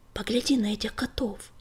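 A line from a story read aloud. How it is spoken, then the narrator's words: Quiet whisper. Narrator (Russian): тихо шепнул ему на ухо Горелый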